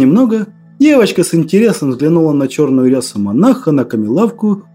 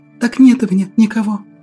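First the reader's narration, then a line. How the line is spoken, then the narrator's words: Girl whispering, teeth chattering. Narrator (Russian): прошептала девочка, цокая зубами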